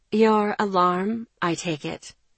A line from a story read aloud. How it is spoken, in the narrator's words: she asked